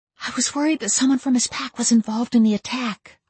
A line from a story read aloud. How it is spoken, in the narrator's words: I whispered